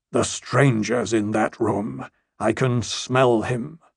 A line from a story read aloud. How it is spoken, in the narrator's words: the Lord of Storm's End growled